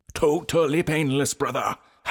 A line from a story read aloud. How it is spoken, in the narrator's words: Hype Man shouted